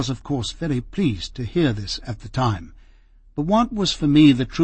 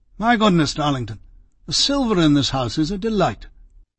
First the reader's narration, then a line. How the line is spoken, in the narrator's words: Lord Halifax exclaiming